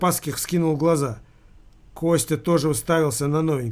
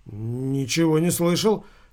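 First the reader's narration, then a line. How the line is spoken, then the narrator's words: Mumbling. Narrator (Russian): промямлил Константин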